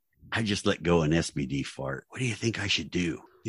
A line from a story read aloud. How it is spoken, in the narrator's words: whispered